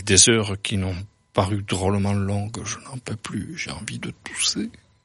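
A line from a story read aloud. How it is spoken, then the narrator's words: Whisper. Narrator (French): chuchota-t-il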